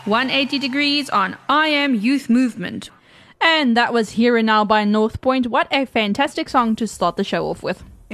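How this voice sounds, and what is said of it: Old-fashioned radio presenter voice. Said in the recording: “Did you like my radio voice? ... that's more like a 1940s radio presenter. ... specifically that voice.”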